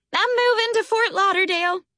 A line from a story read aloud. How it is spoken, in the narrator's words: she squealed